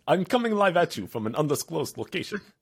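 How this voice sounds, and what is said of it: Put-on accent. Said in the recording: “I don't know if I could talk in this accent for an hour”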